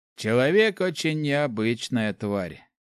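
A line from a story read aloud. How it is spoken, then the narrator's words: Sad, wry. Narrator (Russian): Клирик грустно усмехнулся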